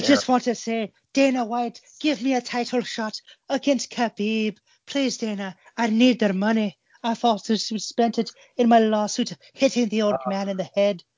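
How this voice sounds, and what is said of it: Irish accent impression of another person. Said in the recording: “my Conor McGregor impression ... culturally appropriate the Irish”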